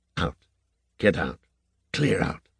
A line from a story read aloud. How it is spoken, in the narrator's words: whispering under her breath